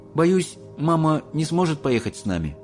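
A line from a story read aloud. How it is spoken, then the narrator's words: Sad. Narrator (Russian): грустно сказал Чарли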